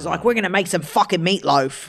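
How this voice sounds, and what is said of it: Put-on Australian accent. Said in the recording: “Is it the Australian guy who cooks? ... That's really good at accents.”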